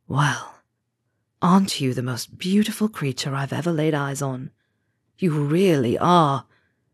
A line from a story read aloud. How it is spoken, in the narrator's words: whispered, soothingly